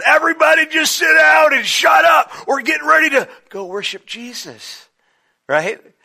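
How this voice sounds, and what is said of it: Yelling. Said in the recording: “I'm yelling”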